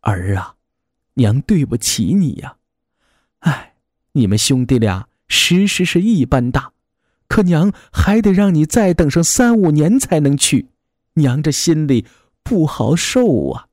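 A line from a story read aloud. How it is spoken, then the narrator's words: Sighing repeatedly. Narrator (Chinese): 娘忍不住连连的叹气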